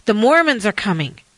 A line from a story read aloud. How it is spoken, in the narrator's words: suddenly someone shouted